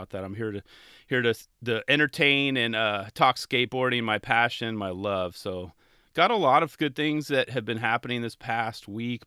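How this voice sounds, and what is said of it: Congested, sinus-affected voice. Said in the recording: “My voice might sound a little different. I'm still dealing with sinus issues”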